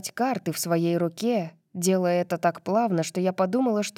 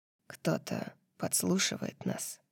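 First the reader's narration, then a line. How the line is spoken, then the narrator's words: Deathly quiet, barely audible. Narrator (Russian): сказал Аструм так мертвенно-тихо, что я почти не расслышала его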